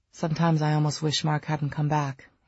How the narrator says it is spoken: he said in a dry, tense voice

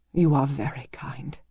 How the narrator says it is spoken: she whispered

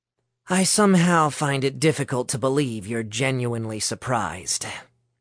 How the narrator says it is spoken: Shane sighed

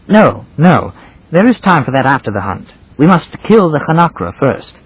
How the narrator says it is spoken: It was in obedience to something like conscience that he exclaimed

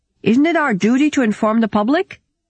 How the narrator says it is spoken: shouted out a Dutch delegate

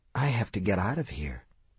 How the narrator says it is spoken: he whispered

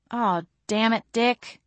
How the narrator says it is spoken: I moaned

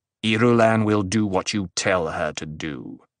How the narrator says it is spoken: Paul growled

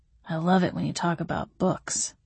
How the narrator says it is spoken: he murmured against my neck

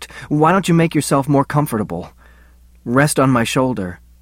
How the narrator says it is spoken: choked

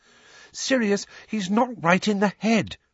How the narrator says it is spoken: Hermione pleaded

